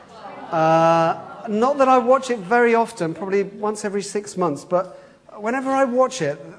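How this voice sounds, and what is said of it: Slight East London accent. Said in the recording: “it's my kind of accent as well, really, ish. Not that I came from the East End, but I came from an area where they talked a bit more like that.”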